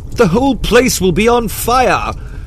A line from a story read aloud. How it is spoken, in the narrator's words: cried Eustace